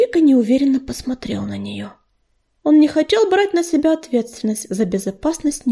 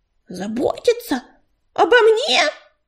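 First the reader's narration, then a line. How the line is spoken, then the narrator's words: Indignant shout. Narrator (Russian): негодующе закричала Белочка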